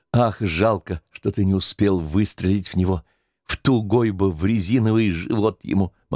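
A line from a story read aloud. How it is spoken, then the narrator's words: Quiet, sobbing, fierce fury. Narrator (Russian): Полина вдруг, всхлипнув, сказала с тихой, но лютой злобой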